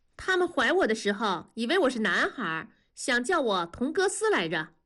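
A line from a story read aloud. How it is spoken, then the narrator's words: Unsmiling, staring. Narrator (Chinese): 燕妮却不笑，仍瞪着眼睛说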